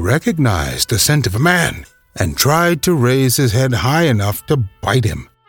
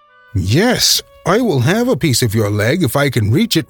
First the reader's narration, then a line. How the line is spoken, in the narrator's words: retorted Kyo, and then he laughed at his own joke